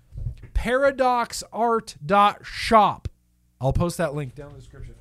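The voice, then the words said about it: Yelling. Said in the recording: “I don't know why I'm yelling.”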